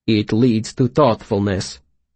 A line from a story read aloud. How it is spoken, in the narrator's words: he said firmly